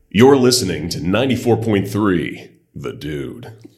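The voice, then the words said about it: Radio announcer voice. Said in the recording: “he can turn on a radio voice like that and it sounds like he's on air ... your best impression of him or like your radio voice? ... That sounded pretty good.”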